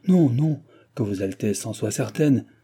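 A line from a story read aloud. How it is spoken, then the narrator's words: Hateful exclamation. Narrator (French): s'écria la haineuse duchesse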